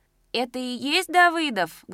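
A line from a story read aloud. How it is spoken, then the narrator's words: Loud question, young woman. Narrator (Russian): громко спросила девка в цветастой шальке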